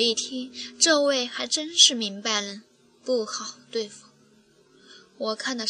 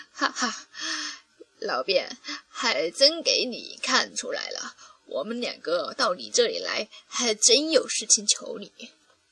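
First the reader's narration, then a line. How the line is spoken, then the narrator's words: Laughing. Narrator (Chinese): 少爷就笑道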